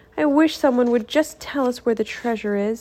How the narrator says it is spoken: sighed Leah

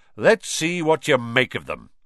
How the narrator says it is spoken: Lockhart said loudly

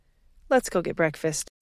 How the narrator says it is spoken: she sighed

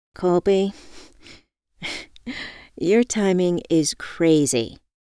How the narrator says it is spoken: I laughed

